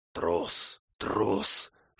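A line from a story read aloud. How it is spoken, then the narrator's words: Loud surrounding whispers. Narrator (Russian): шептали кругом достаточно громко, чтобы он мог расслышать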